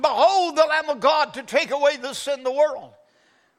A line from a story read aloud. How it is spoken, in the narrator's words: John screamed out